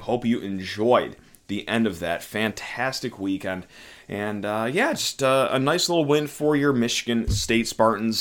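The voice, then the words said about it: Worn-out, strained voice. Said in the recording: “I hope you're doing a lot better than my voice is right now. Yes, this is a voice that was at Breslin Center for senior night, rooting on our Michigan State Spartans”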